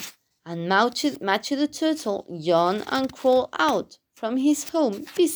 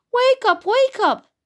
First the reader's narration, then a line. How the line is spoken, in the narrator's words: they shouted